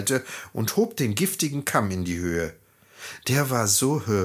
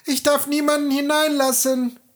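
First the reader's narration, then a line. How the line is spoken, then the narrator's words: Shout. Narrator (German): Schneewittchen rief aus dem Fenster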